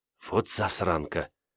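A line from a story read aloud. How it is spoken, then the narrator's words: Whisper. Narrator (Russian): прошептала Грета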